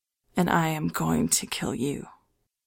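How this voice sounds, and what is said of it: Simple, quiet, deathly voice. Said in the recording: “in a simple voice, a quiet voice. A voice like death.”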